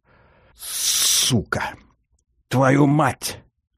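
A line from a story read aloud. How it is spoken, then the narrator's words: Hoarse, in Russian. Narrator (Russian): хрипит тот от чего-то по-русски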